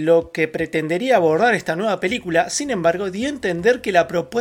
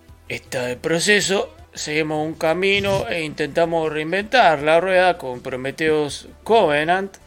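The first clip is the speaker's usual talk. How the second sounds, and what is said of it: Imitates an old man's voice. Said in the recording (Spanish): “Tengo que hacer la voz de Ridley Scott. Es un tipo viejo.”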